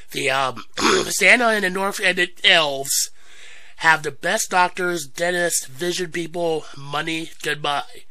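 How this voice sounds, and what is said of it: Voice rough from a cold. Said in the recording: “Sorry for my voice, we are going through a bad cold, it's getting better.”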